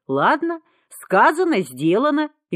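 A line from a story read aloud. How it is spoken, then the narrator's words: Cheerful reply. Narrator (Russian): весело откликнулся кто-то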